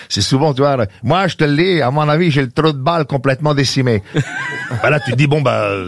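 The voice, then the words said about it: Exaggerated Québécois accent. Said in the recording (French): “l'accent exacerbé ... les expressions québécoises”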